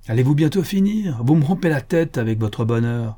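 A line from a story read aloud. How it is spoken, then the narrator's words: Sick woman, sour exclamation. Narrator (French): s'écria aigrement la malade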